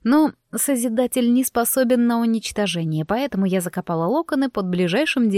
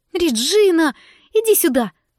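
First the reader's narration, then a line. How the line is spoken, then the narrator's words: Loud shout across room. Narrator (Russian): выкрикнула на всю столовую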